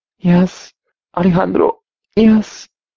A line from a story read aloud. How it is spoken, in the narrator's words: she breathed out, climaxing